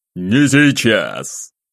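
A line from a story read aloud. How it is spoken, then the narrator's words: Angry bark. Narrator (Russian): рявкнул он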